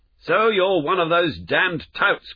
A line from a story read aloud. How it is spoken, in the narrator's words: cried the lad